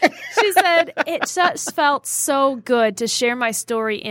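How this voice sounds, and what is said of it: Usual voice. Nothing is said of it.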